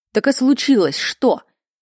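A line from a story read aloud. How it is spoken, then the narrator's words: Abrupt topic change. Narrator (Russian): добавил, резко сменив тему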